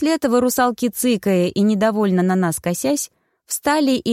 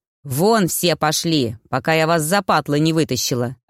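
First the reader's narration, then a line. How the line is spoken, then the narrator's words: Angry bark. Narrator (Russian): рявкнула Яга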